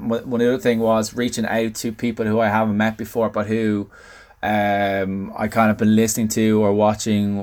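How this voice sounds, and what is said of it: Dublin accent, rich radio voice. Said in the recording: “You have a terrific radio voice ... I don't know if it's the Dublin accent ... my Southside accent”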